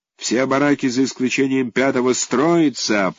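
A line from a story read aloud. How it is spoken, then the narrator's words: Policeman shouting. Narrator (Russian): прокричал полицейский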